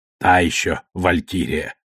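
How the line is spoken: Muttering. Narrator (Russian): бормотала Авассарала

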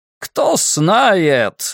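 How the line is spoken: Shouting over engine roar. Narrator (Russian): орал Фриц Вонг, перекрикивая рев мотора

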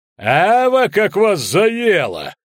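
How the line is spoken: Laughing. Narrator (Russian): рассмеялся Велиберт

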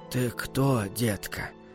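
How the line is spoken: Father's hoarse question. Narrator (Russian): сипло спросил отец

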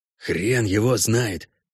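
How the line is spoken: Quiet reply. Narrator (Russian): так же тихо ответил Геральт

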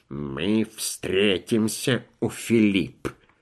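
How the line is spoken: Grumbling. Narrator (Russian): Подпоручик Дуб проворчал

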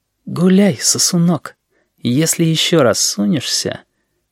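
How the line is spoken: Whispered from behind. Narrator (Russian): Шепотом в спину Сережи Грачев сказал

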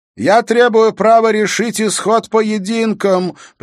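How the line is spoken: Dismissive shouted reply. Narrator (Russian): пренебрежительно оставляя без внимания слова короля, прокричал в ответ Моргарет

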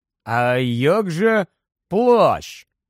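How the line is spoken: Said slowly. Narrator (Ukrainian): повільно проказав Рон

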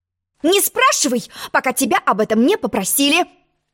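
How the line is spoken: Sharp interruption. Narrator (Russian): Резко перебила ее черная королева

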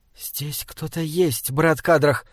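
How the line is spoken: Whisper. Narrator (Russian): шепнула Мириамель

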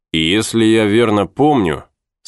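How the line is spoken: Plain. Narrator (Russian): сказал Друз

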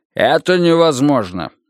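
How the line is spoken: Angry. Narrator (Russian): сердито сказал Гуннерсон

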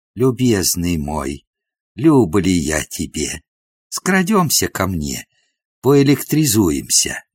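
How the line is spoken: Whispered. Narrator (Russian): Одна бесподобка шепнула

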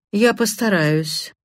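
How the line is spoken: Dry. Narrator (Russian): сухо произнес Карри

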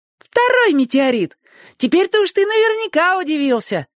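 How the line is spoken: Admiring squeak. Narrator (Russian): восхищенно пищал Цифруша

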